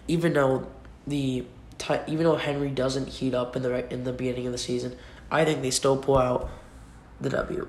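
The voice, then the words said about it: Sick, congested-sounding voice. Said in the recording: “my voice is, not that lethargic, mainly because I'm kind of sick right now. I think I have a cold”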